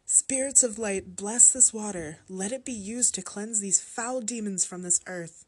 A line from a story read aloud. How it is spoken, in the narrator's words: I cried